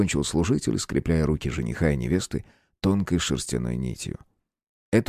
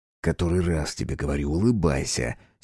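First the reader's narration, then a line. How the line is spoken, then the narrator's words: Angry whisper. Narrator (Russian): сердито шепнул Демир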